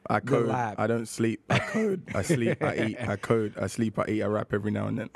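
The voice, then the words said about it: South London accent. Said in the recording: “Where's the accent from? ... South London. I'm a South London boy.”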